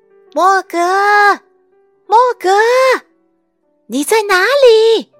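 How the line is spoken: Shouting. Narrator (Chinese): 他们大叫

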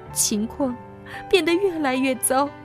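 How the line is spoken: Crying. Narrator (Chinese): 克里姆太太哭着说

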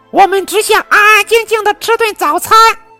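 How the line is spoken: Shrill father shout. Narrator (Chinese): 瓢虫爸爸尖声叫道

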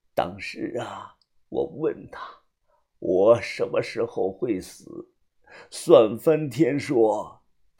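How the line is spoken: Muttering to himself. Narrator (Chinese): 他喃喃的自语

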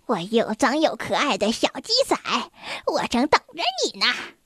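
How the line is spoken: Witch, loud cackling. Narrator (Chinese): 女巫大笑起来

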